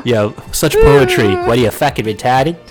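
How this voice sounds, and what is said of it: Matt Damon impression, Boston accent. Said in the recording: “I saw Matt Damon say, what are you fucking retarded? ... oh god, no, the Boston accent.”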